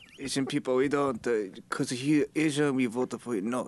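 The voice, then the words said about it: Put-on Asian accent. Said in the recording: “A great Asian impression”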